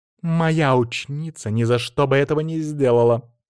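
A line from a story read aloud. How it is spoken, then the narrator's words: Angry exclamation. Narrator (Russian): зло воскликнула Бьянка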